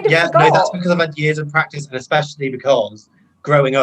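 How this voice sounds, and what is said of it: Usual voice. Nothing is said of it.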